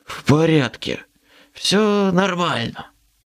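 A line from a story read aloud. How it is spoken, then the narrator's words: Hoarse rasp. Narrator (Russian): захрипел я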